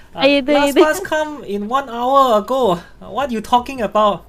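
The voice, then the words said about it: Put-on Taiwanese accent, broken English. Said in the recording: “his English was somewhat more broken than that of the security guard and held a tinge of a Taiwanese accent.”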